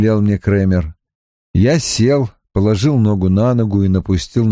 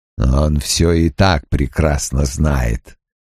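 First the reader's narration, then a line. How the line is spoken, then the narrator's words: Growling. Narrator (Russian): прорычал Крэмер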